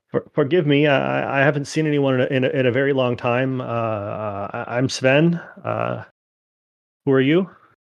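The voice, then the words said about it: Slight Minnesotan accent character voice. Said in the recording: “He has a little bit of a Minnesotan accent.”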